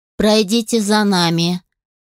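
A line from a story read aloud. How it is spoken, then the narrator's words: Flat, emotionless voice. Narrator (Russian): деревянным и безэмоциональным голосом сказала одна из служанок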